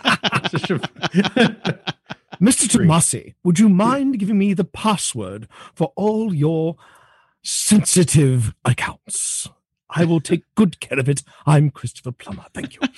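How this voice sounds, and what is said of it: British-accented Christopher Plummer impression. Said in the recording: “the British accent ... For a minute, I thought there was two of you. ... Christopher Plummer ... he still had that British lilt to things”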